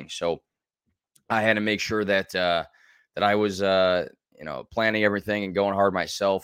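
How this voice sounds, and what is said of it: Raspy, partly lost voice. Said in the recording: “my voice a little raspy ... why did I lose my voice? And it's still kind of lost.”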